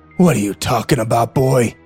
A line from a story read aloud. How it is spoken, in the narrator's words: He growled